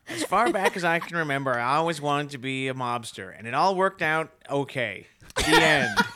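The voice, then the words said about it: Imitates another person's voice. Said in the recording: “Now this is an accent. ... That's a really good Ray Liotta.”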